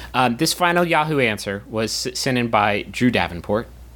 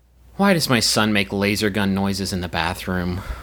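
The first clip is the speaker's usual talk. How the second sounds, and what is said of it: Disappointed tone. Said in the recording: “in an appropriately disappointed voice.”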